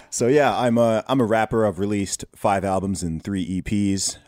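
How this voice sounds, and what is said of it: Mixed accent, not British-sounding. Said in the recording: “You've got an interesting accent from being from the UK ... this guy does not sound British”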